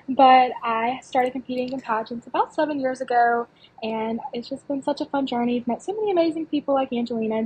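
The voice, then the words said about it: Southern Alabama accent. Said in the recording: “I'm from a small town in Alabama. If you couldn't tell by the accent, we'll get used to me sounding like cornbread eventually.”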